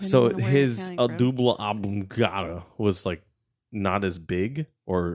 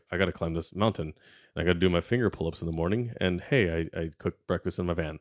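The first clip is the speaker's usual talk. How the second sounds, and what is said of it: Flat monotone character voice. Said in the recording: “he's like very monotone.”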